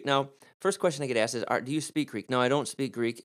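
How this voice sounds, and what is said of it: American Midwestern accent. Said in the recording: “I have an American accent, I live in the Midwest, I live in Michigan, so I have my own accent.”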